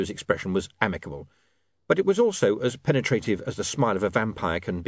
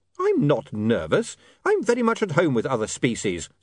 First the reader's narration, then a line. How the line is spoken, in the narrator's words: said William hotly